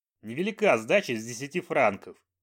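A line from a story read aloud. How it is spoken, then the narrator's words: Snapped. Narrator (Russian): огрызнулся он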